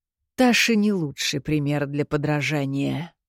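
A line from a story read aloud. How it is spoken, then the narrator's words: Long drawn sigh. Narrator (Russian): протяжно вздохнул Кирино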